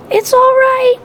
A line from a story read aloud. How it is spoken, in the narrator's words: I squeaked weakly